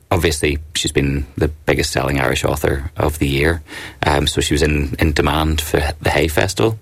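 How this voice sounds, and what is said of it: Belfast accent. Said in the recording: “that accent, I'm trying to place it ... I'm from Belfast”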